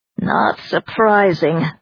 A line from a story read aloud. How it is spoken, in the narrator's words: Claude growled